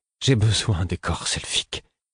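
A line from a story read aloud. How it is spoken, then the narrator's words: Pleading voice. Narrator (French): fis-je d'une voix implorante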